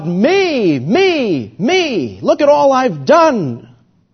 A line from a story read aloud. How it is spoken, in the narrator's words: The Pharisee cried out to God